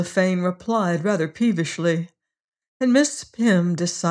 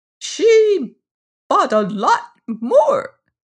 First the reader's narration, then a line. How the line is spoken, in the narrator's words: squeaked Miss Lefane